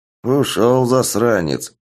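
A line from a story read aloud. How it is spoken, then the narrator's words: Old woman's angry mutter. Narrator (Russian): зло пробормотала старуха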